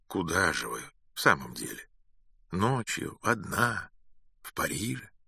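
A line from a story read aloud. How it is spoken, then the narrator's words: Calm question. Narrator (Russian): Спокойно спросил он еще раз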